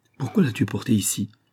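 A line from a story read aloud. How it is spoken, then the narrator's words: Old woman, embarrassed stammering. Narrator (French): La vieille femme, tout embarrassée, balbutie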